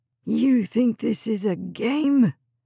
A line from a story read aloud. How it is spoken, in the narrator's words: his breath hot as he bellowed in her face